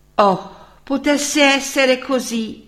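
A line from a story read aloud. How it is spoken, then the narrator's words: Exclaimed together. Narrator (Italian): esclamarono tutti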